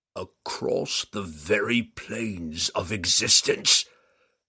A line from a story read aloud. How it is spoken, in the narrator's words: Urtu growled